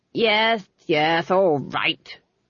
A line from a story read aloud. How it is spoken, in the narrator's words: snapped Lord Felmet